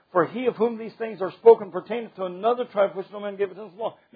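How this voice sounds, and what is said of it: Reading aloud very fast. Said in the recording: “I'm reading that fast”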